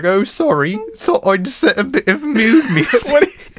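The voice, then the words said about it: Bad put-on British accent. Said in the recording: “Why does he sound like this? ... that was a terrible British accent”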